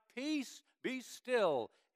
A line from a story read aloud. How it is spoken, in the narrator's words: shout